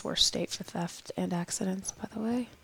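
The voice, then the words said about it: Whispered aside. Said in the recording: “I whispered that on purpose. ... my whispering”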